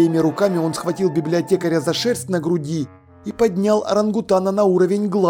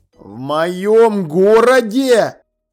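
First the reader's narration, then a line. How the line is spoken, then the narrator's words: Growled. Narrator (Russian): прорычал он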